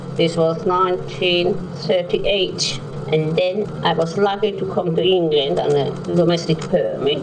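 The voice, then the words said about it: Broad Viennese accent, old cassette recording. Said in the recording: “cassette quality ... broad Viennese accent”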